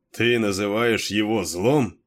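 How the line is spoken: Mocking question. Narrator (Russian): насмешливо переспросил Кейн

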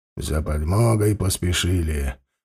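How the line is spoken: Old man's grumble. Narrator (Russian): проворчал старый шкипер Вальдемар Краузе

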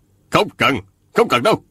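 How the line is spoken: Hasty, angry yet amused. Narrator (Vietnamese): lão vừa tức giận vừa tức cười, vội vàng ngăn cản

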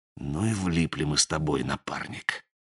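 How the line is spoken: Soft whisper. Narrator (Russian): Сизый тихонько шепнул мотыге

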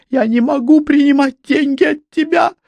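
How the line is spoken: Tearful exclamation. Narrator (Russian): воскликнула она сквозь слезы

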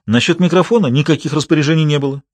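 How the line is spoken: Quick retort. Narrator (Russian): быстро парировал Путнис

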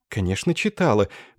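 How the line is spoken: Quiet embarrassed young woman. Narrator (Russian): произнесла девушка тихим, смущенным голосом

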